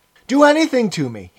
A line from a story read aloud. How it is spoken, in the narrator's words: he yelled